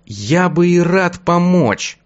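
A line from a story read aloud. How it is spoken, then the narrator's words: Strained forced words. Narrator (Russian): выдавил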